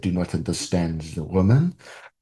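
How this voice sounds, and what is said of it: Bad put-on foreign accent. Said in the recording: “my terrible accent. Which will definitely get me sent to accent jail.”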